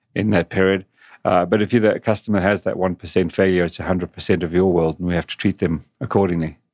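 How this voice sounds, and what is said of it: English-sounding accent. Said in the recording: “that cute English accent ... it's not quite English, but most people think it is.”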